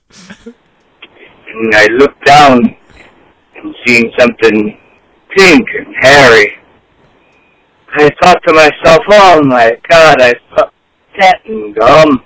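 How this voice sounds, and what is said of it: Shifted, put-on accent. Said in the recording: “His accent changed.”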